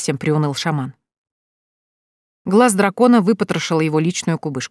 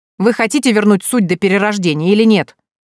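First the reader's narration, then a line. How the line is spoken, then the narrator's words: Sharp shout. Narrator (Russian): прикрикнула Евгения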